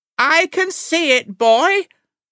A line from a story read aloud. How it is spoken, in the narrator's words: the old lady shouted back